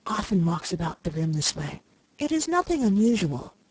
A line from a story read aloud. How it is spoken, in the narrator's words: whispered